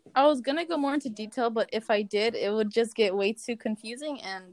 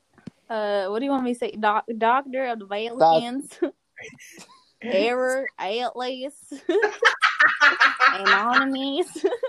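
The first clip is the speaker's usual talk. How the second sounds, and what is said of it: Put-on Southern accent. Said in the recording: “can you do your southern accent, please?”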